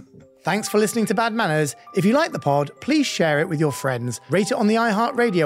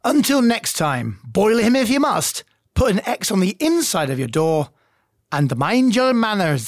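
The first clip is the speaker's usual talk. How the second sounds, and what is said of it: Put-on Scottish accent. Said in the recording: “I don't know why I'm trying to do a Scottish accent.”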